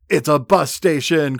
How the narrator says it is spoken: Corey shouts

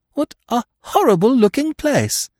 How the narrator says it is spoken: exclaimed

